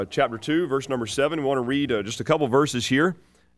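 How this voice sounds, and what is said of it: Voice affected by a cold. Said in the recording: “pardon my voice this morning, I've been fighting a little bit of a cold”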